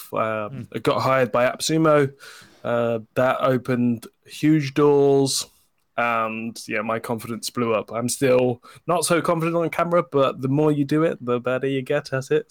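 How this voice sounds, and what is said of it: British accent. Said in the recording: “I'd rather have a British accent”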